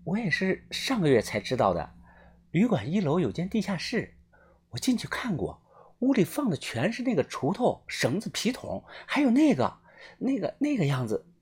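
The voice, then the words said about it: Speaking quietly, hushed voice. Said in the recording (Chinese): “小声的告诉我”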